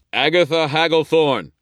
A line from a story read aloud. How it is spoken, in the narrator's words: shouted, forcing my will into my voice